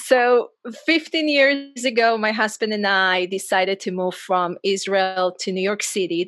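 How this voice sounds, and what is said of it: Subtle, hard-to-place Israeli accent. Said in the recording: “When you hear me, you hear I have an accent... I don't have that accent that you can say, you put the finger on... I'm originally from Israel”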